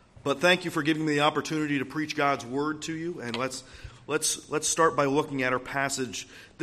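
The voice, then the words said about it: Slightly raspy voice. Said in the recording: “my voice is a little bit raspy. I have just a small cold.”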